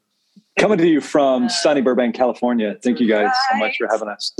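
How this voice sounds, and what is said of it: Radio announcer voice. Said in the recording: “That was my radio voice”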